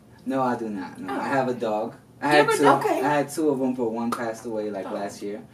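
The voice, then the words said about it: New York Dominican accent. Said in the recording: “I'm Dominican, so my accent kind of comes out. ... The New York Dominican.”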